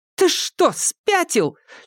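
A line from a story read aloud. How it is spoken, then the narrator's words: Almost shouting. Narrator (Russian): чуть не закричала она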